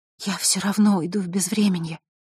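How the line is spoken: Whisper. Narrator (Russian): прошептала Василиса

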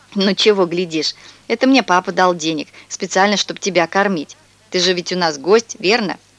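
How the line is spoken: Laughing. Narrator (Russian): Он засмеялся

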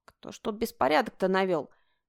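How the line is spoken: Distant grumbling from wardrobe. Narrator (Russian): донеслось до Олена ворчание Инги из гардеробной

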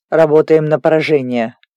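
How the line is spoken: Growled. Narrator (Russian): рыкнул Диего

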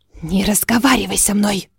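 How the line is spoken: Hiss. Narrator (Russian): прошипела она

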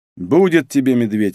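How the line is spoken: Sigh. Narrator (Russian): вздохнул я

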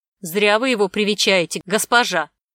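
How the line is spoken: Merchant shouting after her. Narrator (Russian): вдогонку ей выкрикнул торговец

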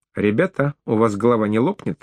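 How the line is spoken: Plain. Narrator (Russian): спросила НАТО

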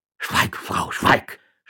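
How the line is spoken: Stuttering town judge. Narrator (German): stotterte der Stadtrichter

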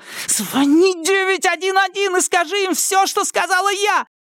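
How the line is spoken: Shout. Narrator (Russian): крикнула Арлин

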